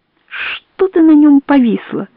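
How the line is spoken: Whisper through teeth. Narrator (Russian): сквозь зубы шепчет Соня

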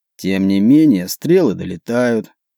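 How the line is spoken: Through gritted teeth. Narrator (Russian): процедил Вокл

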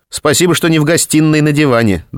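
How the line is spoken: Good-natured snort. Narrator (Russian): добродушно хмыкнула Регина

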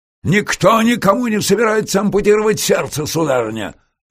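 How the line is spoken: Barked. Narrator (Russian): рявкнул Шницлер

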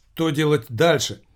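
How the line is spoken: Frightened. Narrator (Russian): испуганно проговорил лейтенант

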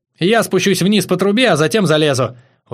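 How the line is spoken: Exclaiming. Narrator (Russian): воскликнул Витёк

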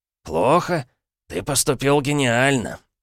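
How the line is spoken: Lively exclamation. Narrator (Russian): живо воскликнул Парадайн

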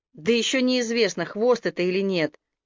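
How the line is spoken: Contemptuous snort. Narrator (Russian): Хики лишь презрительно хмыкнул

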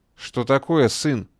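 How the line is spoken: Crushed, despondent. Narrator (Russian): убитым тоном спросила мать

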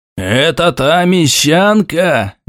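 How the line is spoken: Loud roar. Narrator (Russian): Невзирая на все правила приличия, буквально взревел один из присутствующих

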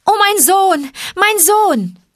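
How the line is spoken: Calling out. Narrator (German): rief

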